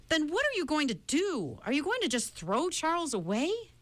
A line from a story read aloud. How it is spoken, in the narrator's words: At last, Meg could stand it no longer, and she cried out despairingly